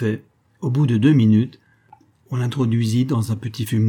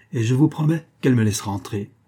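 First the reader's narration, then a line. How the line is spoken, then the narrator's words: Murmured. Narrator (French): murmura-t-il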